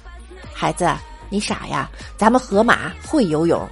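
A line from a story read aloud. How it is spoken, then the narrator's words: Mother speaking softly. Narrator (Chinese): 妈妈轻声的对小马说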